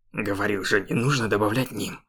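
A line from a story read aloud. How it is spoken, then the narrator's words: Irritated. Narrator (Russian): раздраженно произнес он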